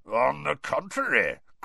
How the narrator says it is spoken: growled Moody

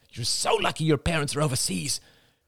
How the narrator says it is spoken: hissed

